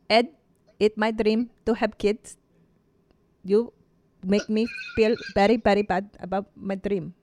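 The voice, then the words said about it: Imitates a Filipino woman's voice. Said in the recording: “doing an impression of the Filipino girl from 90 Day Fiancé before the 90 days ... That's so good ... That was right on.”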